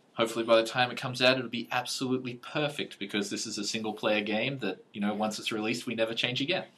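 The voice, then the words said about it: Australian accent. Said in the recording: “I get to talk to another Australian again. ... it's the accent.”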